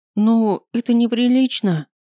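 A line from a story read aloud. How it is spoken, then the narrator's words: Whimpering, squeezed. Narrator (Russian): проскулила я, зажатая в мужских объятиях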